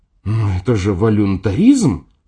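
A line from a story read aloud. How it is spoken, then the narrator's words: Indignant. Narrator (Russian): сказала она возмущенно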